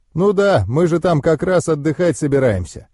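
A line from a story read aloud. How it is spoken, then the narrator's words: Goblin's chuckle. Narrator (Russian): хохотнул гоблин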